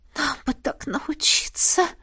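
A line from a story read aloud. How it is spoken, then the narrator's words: Moaning. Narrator (Russian): простонала Лесли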